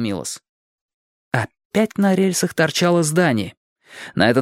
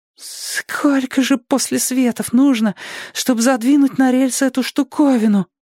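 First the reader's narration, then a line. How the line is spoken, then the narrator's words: Timid babble. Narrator (Russian): пролепетал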